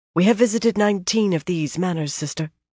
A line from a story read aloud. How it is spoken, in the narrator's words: Avienda said softly